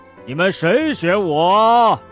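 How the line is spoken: Animals shouting loudly. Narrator (Chinese): 所有的动物都会大声叫道

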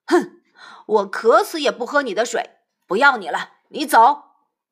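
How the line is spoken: Angry. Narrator (Chinese): 三藏怒道

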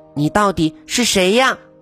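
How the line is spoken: Loud, angry and frightened. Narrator (Chinese): 萨拉既生气又害怕，大声的问他

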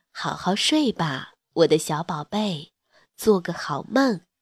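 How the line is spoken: Gentle, tender. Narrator (Chinese): 妈妈温柔地说了句

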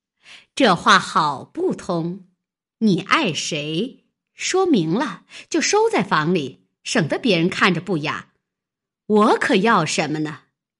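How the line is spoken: Laughing. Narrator (Chinese): 金贵笑道

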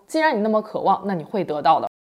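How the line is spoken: Cool, flat reply. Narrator (Chinese): 朱莉却只是淡淡的回答说

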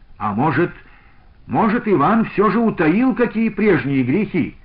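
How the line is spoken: Shouted. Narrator (Russian): крикнул тот же Евсей Галаншин

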